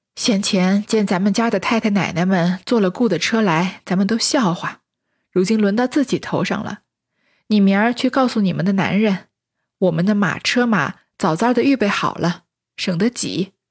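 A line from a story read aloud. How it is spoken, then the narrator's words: Sighing. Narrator (Chinese): 李纨听了，叹息道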